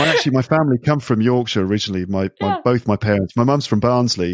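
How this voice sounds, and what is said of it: Usual voice. Nothing is said of it.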